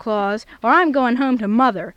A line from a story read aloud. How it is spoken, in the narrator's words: exclaimed Mrs